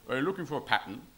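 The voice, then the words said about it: Imitates another person's voice. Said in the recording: “my best impersonation of the sort of thing that John Popel does”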